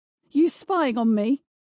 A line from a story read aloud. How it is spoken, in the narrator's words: she shouted